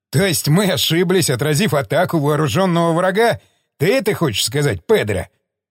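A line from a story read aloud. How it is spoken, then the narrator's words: Laughing. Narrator (Russian): засмеялся Стечкин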